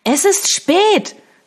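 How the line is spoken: Shouting over music. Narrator (German): schrie Eliza über die Musik hinweg

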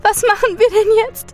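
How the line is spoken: Sobbing question. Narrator (German): schluchzte sie

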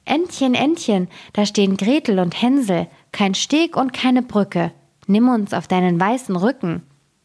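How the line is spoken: Calling out. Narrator (German): Da rief sie

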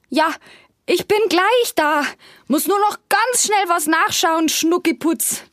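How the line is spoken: Calling out. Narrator (German): ruft er ihr entgegen

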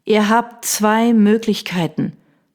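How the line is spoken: Dangerously calm. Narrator (German): sagte ich gefährlich ruhig

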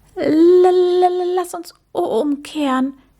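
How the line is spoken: Stammering. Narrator (German): stotterte er

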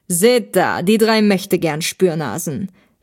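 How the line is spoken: Man mocking. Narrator (German): spottete der Mann

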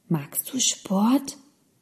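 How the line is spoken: Very soft whisper. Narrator (German): flüsterte Lina ganz leise

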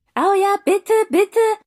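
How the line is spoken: Eager calling, two voices. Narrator (German): rief Tobias und Kevin stimmte mit ein

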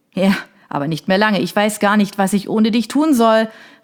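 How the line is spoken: Calling after someone. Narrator (German): rief ihr Sergio nach

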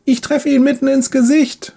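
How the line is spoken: Triumphant call. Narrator (German): ruft Leon, als sein Pfeil das Ziel trifft

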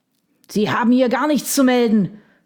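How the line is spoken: Shouting. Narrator (German): schrie er

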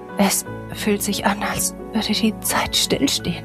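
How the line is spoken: Exhausted murmur. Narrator (German): murmelte Else erschöpft

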